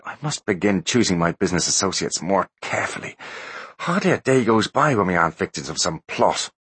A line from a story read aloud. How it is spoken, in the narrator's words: grumbled the teenager